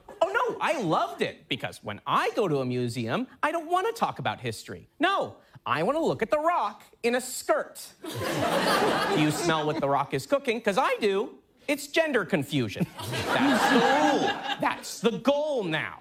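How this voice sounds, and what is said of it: Tucker Carlson impression. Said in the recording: “it's a pretty good impression... It was really good... It does sound exactly like Tucker Carlson... that little blurt of questions that go, pop, pop, pop, pop”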